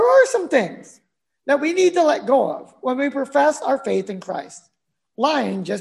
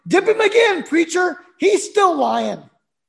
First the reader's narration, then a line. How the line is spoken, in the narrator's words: One of the deacons who was there shouted